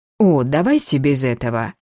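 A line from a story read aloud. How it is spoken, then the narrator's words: Contemptuous snort. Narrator (Russian): я презрительно фыркнула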